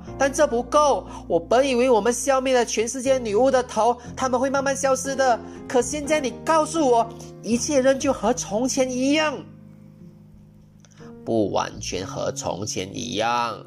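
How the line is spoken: Shouting. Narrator (Chinese): 我叫道

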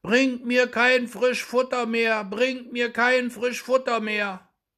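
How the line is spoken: Frightened shout, loud as possible. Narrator (German): rief er endlich in der Angst, so laut er konnte

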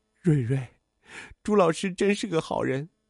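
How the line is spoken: Choked up, tearful. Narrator (Chinese): 杨小荣难过的直掉眼泪，哽咽着说

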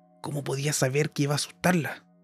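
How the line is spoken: Whispered reply. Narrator (Spanish): respondió Gerod también en un susurro

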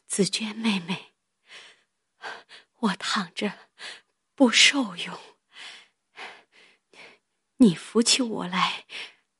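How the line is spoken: Panting, breathless. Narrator (Chinese): 黛玉又一面喘一面说道

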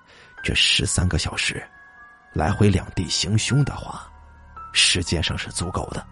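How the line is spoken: Muttering. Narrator (Chinese): 老李喃喃的说

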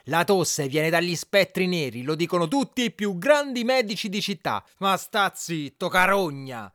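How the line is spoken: Shout. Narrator (Italian): gridò

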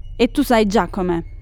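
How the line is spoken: Plain. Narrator (Italian): disse alla figlia

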